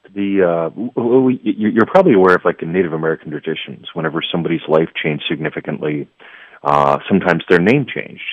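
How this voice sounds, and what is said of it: Smooth, resonant radio voice. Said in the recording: “you have such a radio voice.”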